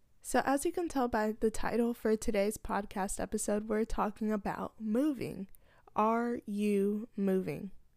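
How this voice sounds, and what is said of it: Voice sounds off, unwell. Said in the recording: “apologize for my voice ... sorry for the way that I sound ... sorry that you have to suffer through this voice”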